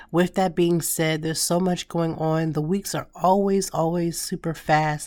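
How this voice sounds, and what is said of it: Raspy voice close to cracking. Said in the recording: “I sound raspy, ... my voice feels like it's going to crack”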